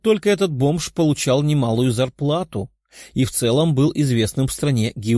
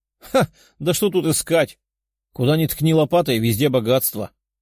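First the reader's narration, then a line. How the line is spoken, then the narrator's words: Laughing scruffy bearded man. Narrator (Russian): хохотнул бородатый мужчина, выглядящий как бомж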